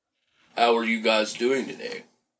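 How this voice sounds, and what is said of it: Flat, monotone delivery. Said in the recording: “It just sounds monotone. ... It needs to be peppier.”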